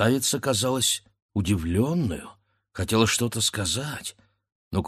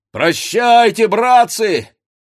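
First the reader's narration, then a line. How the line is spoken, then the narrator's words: Shouted reply. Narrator (Russian): кричал в ответ кузнец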